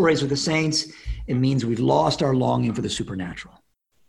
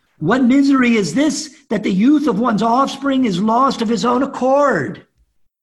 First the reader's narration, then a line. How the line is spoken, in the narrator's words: She cried